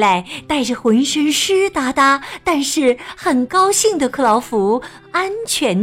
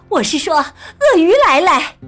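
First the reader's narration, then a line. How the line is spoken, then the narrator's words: Shouting. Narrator (Chinese): 旁边的普利姆太太喊道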